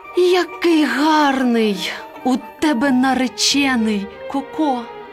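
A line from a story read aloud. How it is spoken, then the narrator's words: Admiring hen's exclamation. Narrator (Ukrainian): курка Паула, побачивши такого красеня, вигукнула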